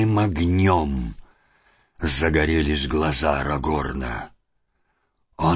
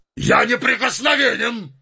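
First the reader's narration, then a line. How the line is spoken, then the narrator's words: Shouting. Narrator (Russian): закричал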